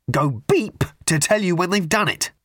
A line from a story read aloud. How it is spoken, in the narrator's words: he added savagely